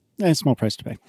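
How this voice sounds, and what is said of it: Sarcastic delivery. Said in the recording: “That was sarcasm. ... I don't think he was serious.”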